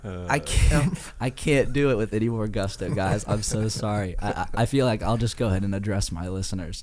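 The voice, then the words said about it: Hoarse, strained low voice. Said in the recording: “Recovering from laryngitis. ... No matter what it seems or sounds ... To try to go higher than this is a scene, man.”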